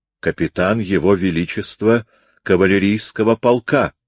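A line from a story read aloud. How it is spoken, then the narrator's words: Plain. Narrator (Russian): ответил Бертрам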